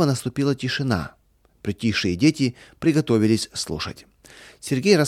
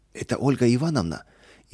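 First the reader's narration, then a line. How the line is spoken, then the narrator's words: Frightened girls. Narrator (Russian): испуганно переглянулись девочки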